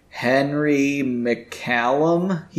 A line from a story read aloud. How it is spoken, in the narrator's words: he said slowly